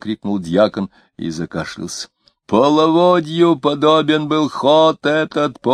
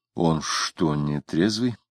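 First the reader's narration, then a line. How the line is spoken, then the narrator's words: Whispered question. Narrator (Russian): шептом спросил Самгин соседа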